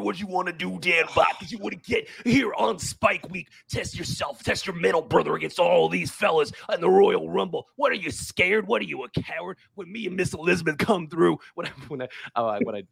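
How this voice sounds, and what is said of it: Raspy gravelly wrestler promo impression. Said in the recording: “Macho Man impression ... a little bit of like a throat surgery combined with a copious 80s cocaine usage. And that's how you get to your Macho Man impression.”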